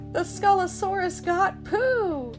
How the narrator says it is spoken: Tigger cried

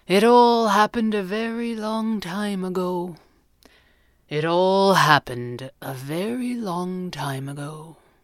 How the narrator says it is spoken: he said sadly

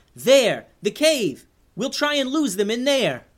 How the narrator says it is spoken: She yelled

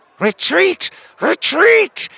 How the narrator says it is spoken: he shrieked

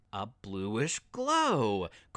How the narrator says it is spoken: Chris added excitedly

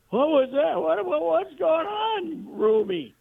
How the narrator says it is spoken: Tony's screams

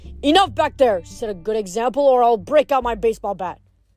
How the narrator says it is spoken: Coach Hedge barked

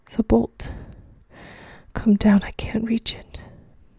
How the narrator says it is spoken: the old woman's voice, strained and panting

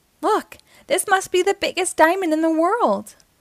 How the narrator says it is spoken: Uniqua exclaimed

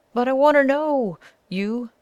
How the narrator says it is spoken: shrieked the guide

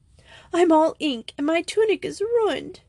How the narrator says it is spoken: she said in choked words

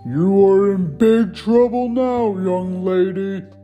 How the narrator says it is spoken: bellowed Ming

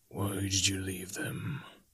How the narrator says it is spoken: He whispered

